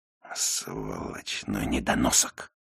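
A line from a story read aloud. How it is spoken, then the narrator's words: Grumbling. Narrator (Russian): пробурчал Бун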